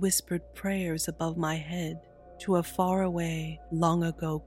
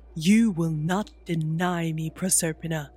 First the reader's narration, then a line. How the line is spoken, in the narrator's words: he bellowed